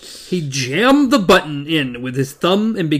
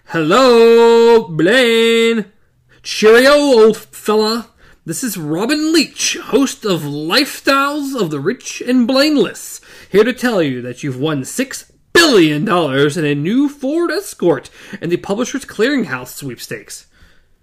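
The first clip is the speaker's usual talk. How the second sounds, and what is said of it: Loud, plummy fake British accent. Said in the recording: “began to bellow into the speaker, adopting a plummy and completely bogus British accent.”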